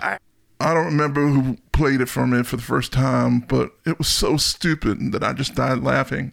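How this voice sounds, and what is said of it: Imitates another person's voice. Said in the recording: “That was a good impression of him. ... No, it wasn't. It's awful.”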